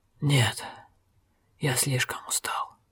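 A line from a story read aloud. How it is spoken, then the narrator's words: Exhausted strained rasp. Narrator (Russian): Огерт с трудом прохрипел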